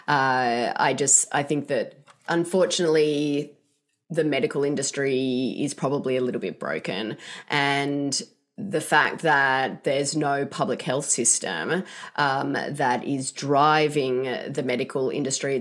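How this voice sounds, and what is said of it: Australian accent. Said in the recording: “obviously I'm not from here, as you can tell by my accent, but in Australia”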